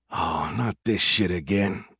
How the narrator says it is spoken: he groaned

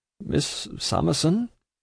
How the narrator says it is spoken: Jarndyce, in a troubled voice, repeats

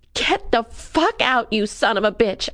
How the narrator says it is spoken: I yelled

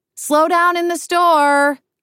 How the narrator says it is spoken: I shout

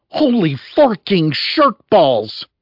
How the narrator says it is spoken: Nikki leaped to her feet and yelled

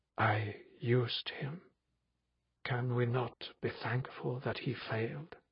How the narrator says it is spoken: In the silence I heard his faint whisper

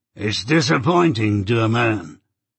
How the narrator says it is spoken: he said in a coarse, broken voice

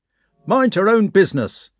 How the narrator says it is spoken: an old sergeant shouted

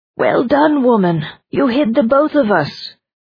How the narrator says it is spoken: He called out

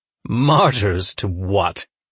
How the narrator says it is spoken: Goddard sneered

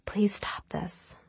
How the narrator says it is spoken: she whispered

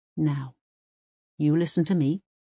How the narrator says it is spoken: says Uwe calmly

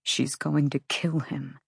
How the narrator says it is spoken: Rune whispered

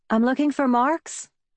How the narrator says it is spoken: called out the truck window

